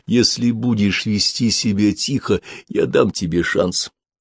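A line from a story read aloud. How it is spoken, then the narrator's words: Whispering. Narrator (Russian): Тогда Тобелла приблизил губы к его уху и зашептал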